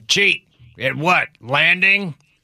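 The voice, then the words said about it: Imitates another person's voice. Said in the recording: “Is that an imitation of me? ... My imitation of you imitating your dad.”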